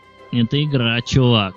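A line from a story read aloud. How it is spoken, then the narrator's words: Grating unpleasant male voice. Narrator (Russian): заговорил парень, скрежещущим, неприятным голосом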